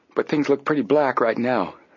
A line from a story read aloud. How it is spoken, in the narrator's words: the boy said